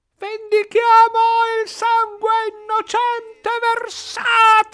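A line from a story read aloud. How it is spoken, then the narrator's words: Crowd shouting. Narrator (Italian): urlavano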